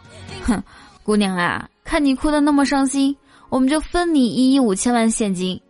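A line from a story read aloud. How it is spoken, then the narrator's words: Consoling. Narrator (Chinese): 看到他哭得撕心裂肺，就安慰说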